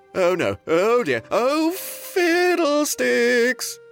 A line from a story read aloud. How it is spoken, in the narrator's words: the prince shouted